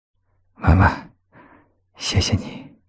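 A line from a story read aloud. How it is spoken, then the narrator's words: Smiling murmur. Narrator (Chinese): 谢景亭笑语喃喃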